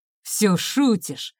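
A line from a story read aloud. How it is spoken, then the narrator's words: Angry question. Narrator (Russian): зло спросил он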